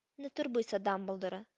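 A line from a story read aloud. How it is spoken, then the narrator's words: Cold. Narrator (Ukrainian): сказав холодно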